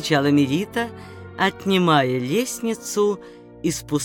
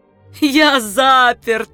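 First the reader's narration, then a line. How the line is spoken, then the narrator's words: Laughing. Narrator (Russian): смеялся Пруденций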